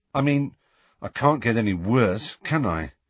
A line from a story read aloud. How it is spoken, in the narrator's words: he told Harry and Hermione grimly